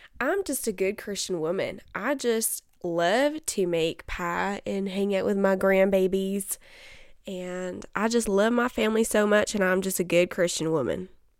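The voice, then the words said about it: Put-on Southern accent. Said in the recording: “talking a lot recently with a southern accent ... I just think it's fun to talk in a southern accent”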